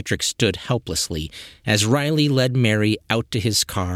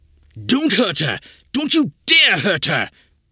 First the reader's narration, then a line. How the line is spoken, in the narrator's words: he shouted